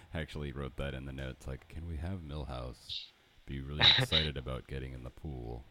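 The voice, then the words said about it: Imitates another person's voice. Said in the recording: “flawless James L. Brooks impersonation”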